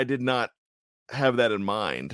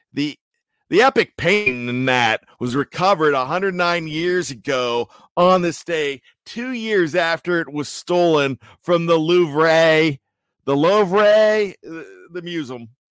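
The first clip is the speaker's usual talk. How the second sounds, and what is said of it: Put-on Pittsburgh Yinzer accent. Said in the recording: “I'd love to do my Yinzer accent. ... Jeff doesn't uh, really want me to do my Yinzer anywhere, but I'm going to do it here.”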